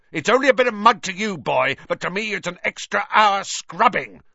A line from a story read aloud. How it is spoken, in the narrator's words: shouted Filch